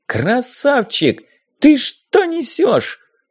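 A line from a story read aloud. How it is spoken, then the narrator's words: Indignant yell. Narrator (Russian): возмущенно завопила Дейзи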